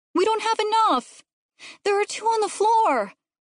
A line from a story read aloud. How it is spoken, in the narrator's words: Jasper shouted